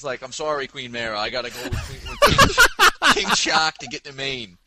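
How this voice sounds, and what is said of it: Put-on Maine accent, dropped r's. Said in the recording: “comes from Maine ... his dialogue will be with accent. Like, they'll drop the ah.”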